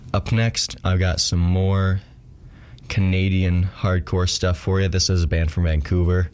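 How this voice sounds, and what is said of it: Congested, stuffy-nosed voice. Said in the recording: “sorry if I sound weird today. I'm congested because of the cold”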